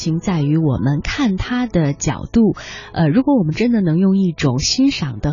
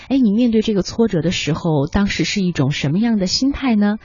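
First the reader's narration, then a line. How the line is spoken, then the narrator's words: Plain. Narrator (Chinese): 他说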